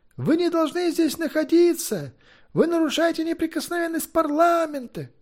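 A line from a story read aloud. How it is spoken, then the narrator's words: Shouting. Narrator (Russian): кричал кто-то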